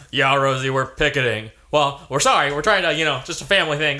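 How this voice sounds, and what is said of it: Imitates another person's voice. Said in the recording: “You're doing a great impression.”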